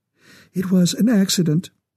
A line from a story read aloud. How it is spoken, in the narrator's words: her voice trembled